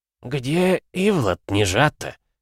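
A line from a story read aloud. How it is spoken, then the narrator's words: Hoarse wheeze, parched lips. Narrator (Russian): просипел царь, разлепив спекшиеся губы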